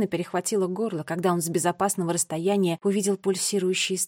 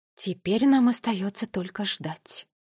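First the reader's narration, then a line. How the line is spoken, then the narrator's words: Whisper. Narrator (Russian): прошептала она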